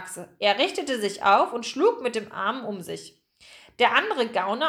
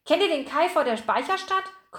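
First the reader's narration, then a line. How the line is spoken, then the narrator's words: Breathless panting. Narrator (German): keuchte Picardou atemlos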